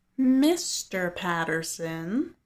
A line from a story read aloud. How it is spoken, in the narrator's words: Lucy says in a mocking sing-song